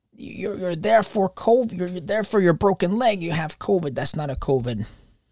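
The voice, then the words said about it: Imitates another person's voice. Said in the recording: “That's a terrible impression”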